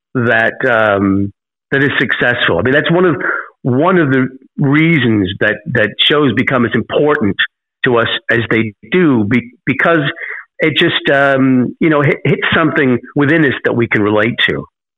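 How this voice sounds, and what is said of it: British accent. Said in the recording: “you hear a British accent coming out of a young man”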